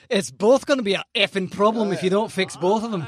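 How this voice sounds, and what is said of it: Put-on Scottish accent. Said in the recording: “I can say it in a Scottish accent.”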